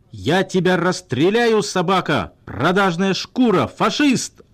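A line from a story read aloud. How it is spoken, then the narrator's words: Furious yelling boss. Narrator (Russian): орал начальник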